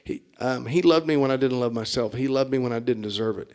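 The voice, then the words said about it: Choked-up, emotional voice. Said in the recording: “I got a little choked up.”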